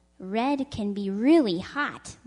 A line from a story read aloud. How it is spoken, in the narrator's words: Blue said